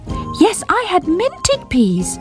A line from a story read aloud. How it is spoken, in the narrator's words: repeated Squeak, determined not to be ignored